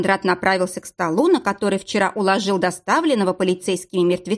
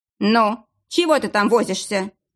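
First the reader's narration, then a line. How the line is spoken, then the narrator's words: Irritated. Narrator (Russian): раздраженно проговорил Арсений Никодимович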